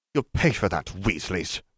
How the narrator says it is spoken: he snapped

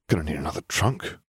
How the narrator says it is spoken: muttered

